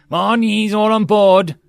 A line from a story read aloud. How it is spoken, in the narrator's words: The goblin yelled into his oversized headset